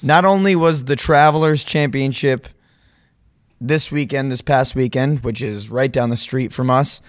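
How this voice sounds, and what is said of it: Hoarse, drained voice. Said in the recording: “If we sound a little bit drained, we are. ... We are drained. My voice is hoarse because there was a lot of yelling.”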